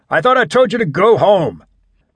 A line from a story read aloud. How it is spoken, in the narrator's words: shouted